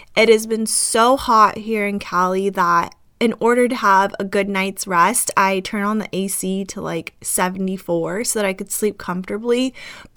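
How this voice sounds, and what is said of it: Slightly rough, itchy-throated voice. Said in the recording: “my voice sounds a little bit different ... because I am having a little bit of like an itchy throat ... now I have like this really bad itchy”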